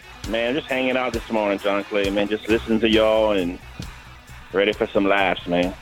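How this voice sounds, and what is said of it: Southern Louisiana accent. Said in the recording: “I can tell by the accent. ... one of your kind, Southern Louisiana. I can hear it in your voice.”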